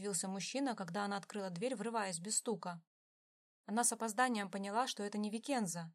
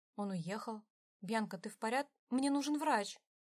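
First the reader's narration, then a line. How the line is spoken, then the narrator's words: Frightened exclamation. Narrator (Russian): испуганно воскликнула она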